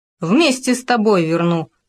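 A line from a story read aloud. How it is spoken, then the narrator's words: Habitual chuckle. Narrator (Russian): хохотнул он привычно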